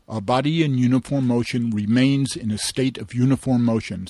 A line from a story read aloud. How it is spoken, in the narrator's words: said Paul